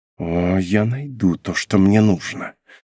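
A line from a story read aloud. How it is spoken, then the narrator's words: Whispered through teeth. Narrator (Russian): шептала сквозь зубы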